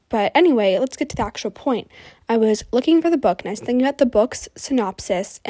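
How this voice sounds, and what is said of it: Nasal-sounding voice. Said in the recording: “my voice sounds really nasally right now.”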